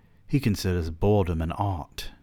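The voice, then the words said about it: Put-on British accent. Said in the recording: “I don't know why I'm giving this man a British accent, but I am.”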